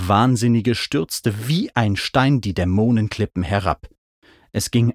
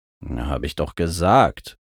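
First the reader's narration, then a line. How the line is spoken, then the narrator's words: Grumbling. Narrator (German): brummte Mac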